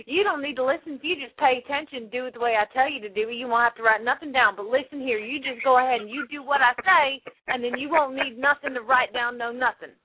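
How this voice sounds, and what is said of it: Put-on Southern US accent. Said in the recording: “With a southern accent. You do it with a southern accent ... You're probably closer.”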